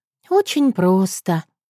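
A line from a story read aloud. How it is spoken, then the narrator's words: Sighing. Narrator (Russian): Вздохнула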